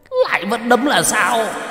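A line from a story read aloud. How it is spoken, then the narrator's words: Demon shouting. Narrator (Vietnamese): Con quỷ hét lên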